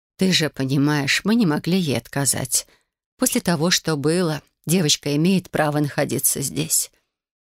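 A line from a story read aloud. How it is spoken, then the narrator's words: Gentle, mother speaking. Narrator (Russian): мягко произнесла мама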